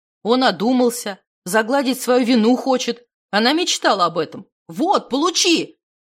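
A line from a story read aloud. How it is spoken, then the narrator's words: Brother yelling. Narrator (Russian): завопил брат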